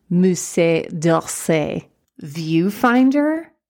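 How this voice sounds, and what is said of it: Put-on French accent. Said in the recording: “attempting a French accent”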